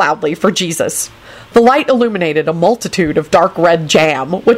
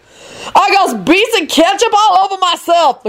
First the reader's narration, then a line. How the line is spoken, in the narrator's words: Lucretia shrieked